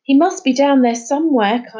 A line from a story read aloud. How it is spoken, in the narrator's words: Kyla shouted down to him